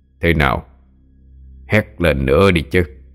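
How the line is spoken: Man, contemptuous tone. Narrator (Vietnamese): Gã áo đen lên tiếng, nói với giọng điệu khinh thường

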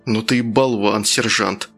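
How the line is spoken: Quick gruff mutter. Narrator (Russian): наскоро буркнул один из них

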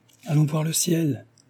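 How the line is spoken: Impetuous exclamation. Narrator (French): s'écria impétueusement Jean

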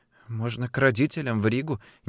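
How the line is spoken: Uncertain reply. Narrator (Russian): неуверенно ответила Илза

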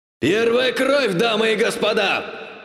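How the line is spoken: Bloodthirsty shout over cheering crowd. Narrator (Russian): Кровожадно закричал ведущий маг под радостный рев толпы

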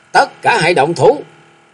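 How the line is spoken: Arrogant loud shout. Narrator (Vietnamese): Triển Bội Ngọc là kẻ tàn độc kiêu căng, liền quát lớn

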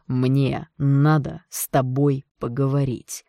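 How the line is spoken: Curt, through clenched teeth. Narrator (Russian): отрывисто процедил он сквозь зубы

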